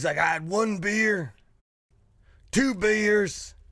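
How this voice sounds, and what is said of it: Raspy imitation of another person's voice. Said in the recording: “your stone cold is pretty raspy. ... You're doing a good job.”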